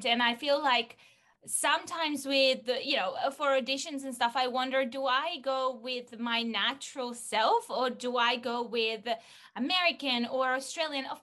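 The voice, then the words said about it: Speaker with a distinctive accent. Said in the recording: “I have a specific accent ... my unique twang”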